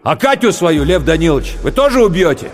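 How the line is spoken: Drunken shout. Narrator (Russian): Пьяный, Романецкий крикнул

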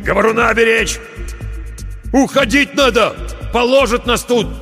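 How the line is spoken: Shouted. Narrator (Russian): крикнул он

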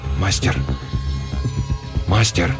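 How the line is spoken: Hoarse wheeze. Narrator (Russian): прохрипел

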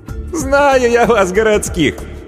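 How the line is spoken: Sincere laughter. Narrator (Russian): Анна искренне рассмеялась

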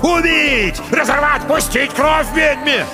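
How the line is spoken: Frenzied crowd shouting. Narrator (Russian): Люди кричали, брызгали слюной

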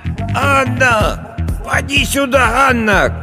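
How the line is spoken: Old woman shouting. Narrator (Russian): кричала старая Агафья в завешенное пожелтевшим тюлем окно

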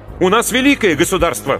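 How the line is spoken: Young man exclaiming. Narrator (Russian): воскликнул юноша

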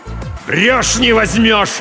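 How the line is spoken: Yelling. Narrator (Russian): заорал Кузьма Фомич

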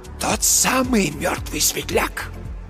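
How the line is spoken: Very quiet hoarse wheeze. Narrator (Russian): просипел Марк Йоган совсем тихо

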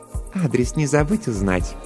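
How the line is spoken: Purring. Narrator (Russian): промурлыкала Жанна

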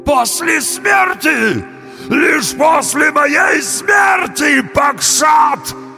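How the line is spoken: Trembling howl. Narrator (Russian): завопил бык, весь дрожа

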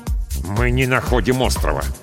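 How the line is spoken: Through gritted teeth. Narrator (Russian): сквозь зубы ответил пилот

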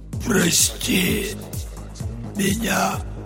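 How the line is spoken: Muffled wheeze from within. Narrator (Russian): просипело откуда-то изнутри него

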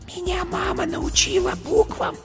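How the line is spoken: Whispered. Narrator (Russian): шепотом сказала зайка

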